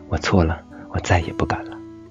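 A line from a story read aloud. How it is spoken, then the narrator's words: Pinned down, muttering. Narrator (Chinese): 男生被小青按在地上，无法动弹，嘴里嘀咕着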